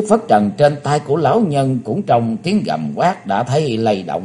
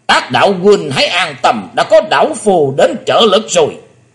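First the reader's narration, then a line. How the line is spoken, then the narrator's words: Old man roaring like bell. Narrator (Vietnamese): Vạn Bát Kỳ Trân là chính lão nhân đã gầm lên tợ như chuông đồng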